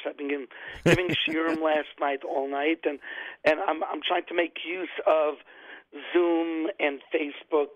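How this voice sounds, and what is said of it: Slightly hoarse voice. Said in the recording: “You could tell I'm a little bit hoarse.”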